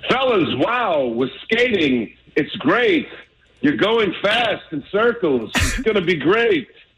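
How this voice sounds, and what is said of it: Christopher Walken impression. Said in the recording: “Oh, can you imagine that speech from Christopher Walken? ... do an impersonation ... that was good, buddy. I like that one.”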